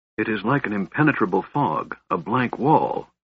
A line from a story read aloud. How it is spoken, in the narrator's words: Raistlin whispered